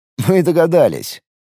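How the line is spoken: Snort. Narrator (Russian): хмыкнул скрипач

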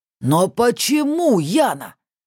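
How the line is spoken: Roar. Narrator (Russian): взревел Сан Палыч

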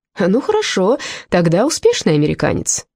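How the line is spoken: Cheerful. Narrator (Russian): веселым голосом поправил себя Холмс

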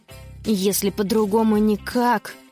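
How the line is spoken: Grumbling. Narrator (Russian): проворчала та

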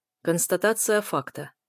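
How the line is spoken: Dry reply. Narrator (Russian): сухо отзывается Долинский

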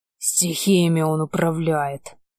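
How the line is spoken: Growled while running. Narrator (Russian): рыкнул Гаррет, пока мы улепетывали от реки, что было мочи

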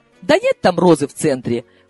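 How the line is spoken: Snorted. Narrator (Russian): фыркнула Капитолина

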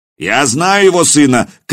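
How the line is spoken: Shouted reply. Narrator (Russian): крикнули в ответ

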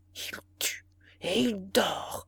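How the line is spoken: Murmured. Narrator (French): murmura le ministre

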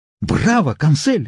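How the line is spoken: Exclaiming. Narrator (Russian): воскликнул

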